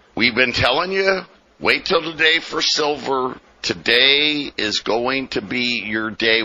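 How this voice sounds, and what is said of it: Scratchy, slightly rough voice. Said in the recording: “my voice is a little scratched up here as, I don't know, something's in the air”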